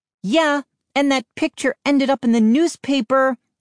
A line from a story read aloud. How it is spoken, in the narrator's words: Mindy moaned